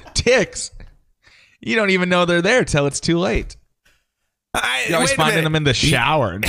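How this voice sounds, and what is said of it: Usual voice. Nothing is said of it.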